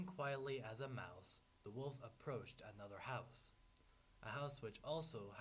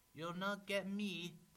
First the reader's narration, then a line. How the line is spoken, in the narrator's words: the piggy cried